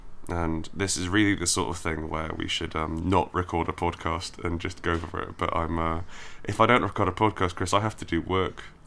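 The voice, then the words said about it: Slightly croaky, sick-sounding voice. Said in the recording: “I should also note that I'm ill, so my voice is a little bit croaky.”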